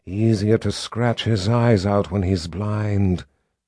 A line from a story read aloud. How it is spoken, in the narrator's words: she said in her hissy voice